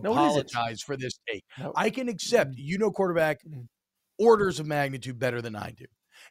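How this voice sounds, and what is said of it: Usual voice. Nothing is said of it.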